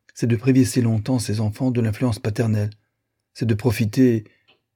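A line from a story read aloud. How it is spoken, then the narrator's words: Exclamation. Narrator (French): s'écria-t-elle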